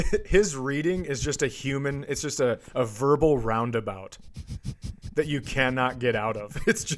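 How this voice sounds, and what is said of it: Usual voice. Nothing is said of it.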